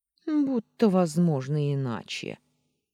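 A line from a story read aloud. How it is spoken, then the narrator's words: Grumbling cat. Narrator (Russian): проворчал кот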